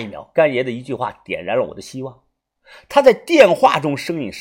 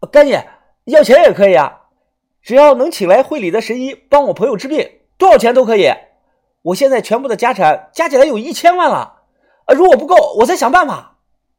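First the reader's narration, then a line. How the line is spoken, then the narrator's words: Urgent shout. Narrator (Chinese): 我马上大喊着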